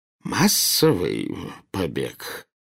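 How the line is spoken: Hoarse, incredulous question. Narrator (Russian): севшим голосом переспросил премьер-министр

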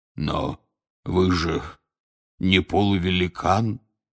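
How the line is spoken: Hoarse rasp. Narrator (Russian): прохрипел Хагрид

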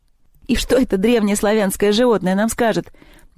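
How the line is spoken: Nervous giggle. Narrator (Russian): нервно хихикнул Севка

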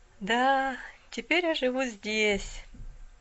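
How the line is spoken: Sighing. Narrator (Russian): вздохнула девушка

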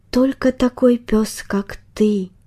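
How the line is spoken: Slightly upset whisper. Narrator (Russian): прошептал Барбос немного расстроенно

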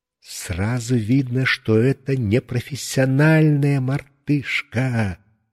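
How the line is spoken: Comforting whisper. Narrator (Russian): Шепотом утешил меня дядя Гоша

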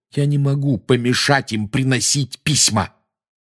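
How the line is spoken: Snapping retort. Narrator (Russian): огрызнулся Гарри

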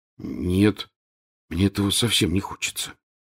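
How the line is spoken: Very quiet. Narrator (Russian): очень тихо сказал Рон

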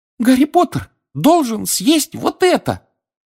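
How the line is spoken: Squeak. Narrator (Russian): пискнул эльф

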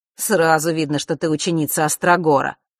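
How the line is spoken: Amused snort. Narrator (Russian): хмыкнул Маар

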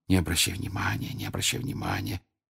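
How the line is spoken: Whispered repeatedly. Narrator (Russian): все время твердя шепотом

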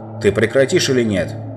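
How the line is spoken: Yelling. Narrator (Russian): завопил Юстас

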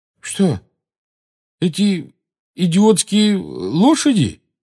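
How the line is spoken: Uncertain question. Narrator (Russian): неуверенно спросил Рон

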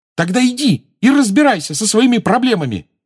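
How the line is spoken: Furious exclamation. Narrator (Russian): разъяренно воскликнула Джоу

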